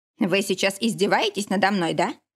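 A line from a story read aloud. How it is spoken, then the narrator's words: Sudden angry question. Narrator (Russian): Вдруг сердито спросил Никита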